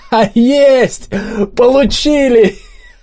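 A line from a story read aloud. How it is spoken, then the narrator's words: Joyful shout. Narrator (Russian): радостно прокричал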